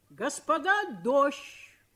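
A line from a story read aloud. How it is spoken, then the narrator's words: Shout. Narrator (Russian): крикнул кто-то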